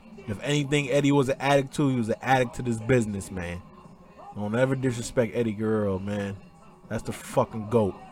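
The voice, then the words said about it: Choked-up, emotional voice. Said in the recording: “all emotional, tied up, my words, I got all choked up”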